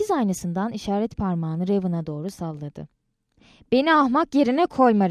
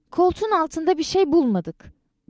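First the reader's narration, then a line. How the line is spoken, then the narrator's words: Shouting. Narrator (Turkish): diye bağırdı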